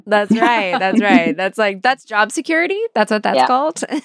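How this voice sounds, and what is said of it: Slight twangy accent. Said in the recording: “I love that you go a little bit more with the accent around your mom. It just comes out... I can hear it. These little twangs are coming out.”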